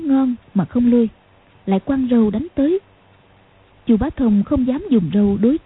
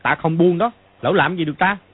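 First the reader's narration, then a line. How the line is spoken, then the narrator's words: Angry shout. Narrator (Vietnamese): rất khó chịu, cũng tức giận mà quát lên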